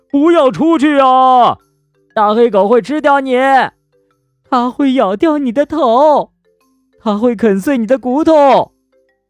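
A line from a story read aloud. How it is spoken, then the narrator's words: Alarmed crowd crying out. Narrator (Chinese): 大家惊叫着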